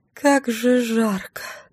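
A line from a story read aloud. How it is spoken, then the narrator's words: Loud, theatrical moan. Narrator (Russian): простонала я нарочито громко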